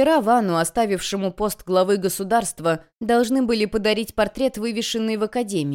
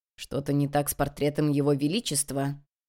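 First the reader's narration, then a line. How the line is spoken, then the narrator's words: Quiet question. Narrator (Russian): тихо спросил Сосон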